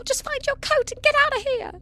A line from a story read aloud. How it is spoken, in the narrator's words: he screeched in a minute voice